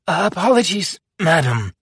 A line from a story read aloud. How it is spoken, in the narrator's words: I said hastily